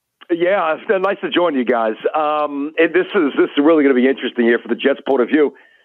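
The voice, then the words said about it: Voice affected by illness. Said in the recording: “I apologize for my voice. I've actually been a little bit under the weather”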